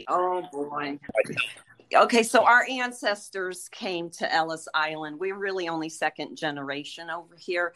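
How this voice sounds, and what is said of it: New York area accent. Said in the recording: “through the accent, I could tell you you guys seem like you're former New Yorkers ... New Haven, Connecticut is like a mini New York in a lot with the accent ... it sounds like a little bit of, either Lower Manhattan or maybe Long Island”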